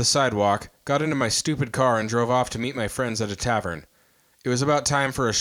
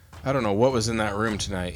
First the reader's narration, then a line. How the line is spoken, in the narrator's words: he said